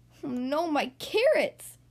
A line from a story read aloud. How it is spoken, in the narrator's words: cried Rabbit